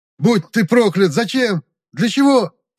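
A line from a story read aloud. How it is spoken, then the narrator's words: Anguished screaming. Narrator (Russian): завопил оловеец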